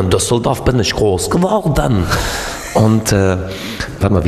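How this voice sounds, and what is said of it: Usual voice. Nothing is said of it.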